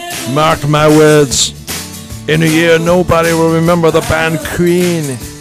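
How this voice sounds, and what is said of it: Poor put-on Scottish accent. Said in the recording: “That's my Mike Myers terrible Scottish impression.”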